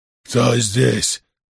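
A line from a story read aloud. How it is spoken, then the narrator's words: Drunken growl. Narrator (Russian): пьяно прорычал он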